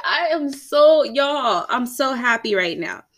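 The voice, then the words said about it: Excited, joyful speaking voice. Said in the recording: “hear the excitement in my voice.”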